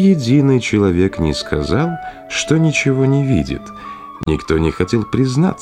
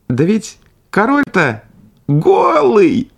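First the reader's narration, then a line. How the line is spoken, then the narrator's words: Small boy's sudden shout. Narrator (Russian): закричал вдруг какой-то маленький мальчик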